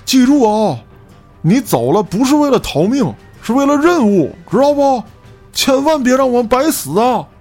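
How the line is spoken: Shouting back. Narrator (Chinese): 回头喊道

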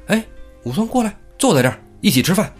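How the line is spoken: Calling out. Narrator (Chinese): 张都监就叫他

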